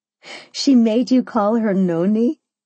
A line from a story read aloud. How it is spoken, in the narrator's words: I laughed